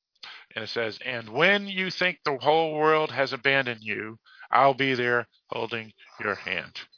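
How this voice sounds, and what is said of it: Boston accent, dropped R's. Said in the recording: “I do have my Boston accent. I do not pronounce my R's.”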